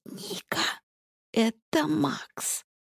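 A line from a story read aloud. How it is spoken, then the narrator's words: Near whisper. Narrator (Russian): произносит она почти шепотом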